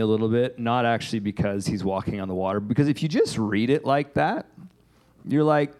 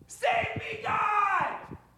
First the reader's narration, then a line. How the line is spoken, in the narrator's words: He shouted